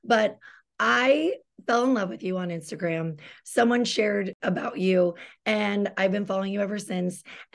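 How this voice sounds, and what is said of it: Husky voice, getting over cold. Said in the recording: “excuse my voice, getting over a cold ... I'm just going to be a little huskier today”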